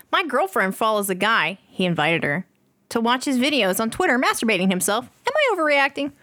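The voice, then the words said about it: Reads in an announcer voice. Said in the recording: “Why are you reading this in your, like, announcer voice?”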